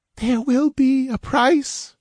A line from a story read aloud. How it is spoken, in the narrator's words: she breathed